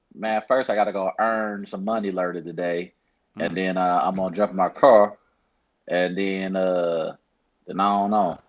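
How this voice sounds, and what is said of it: Put-on St. Louis accent. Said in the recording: “what's your St. Louis accent”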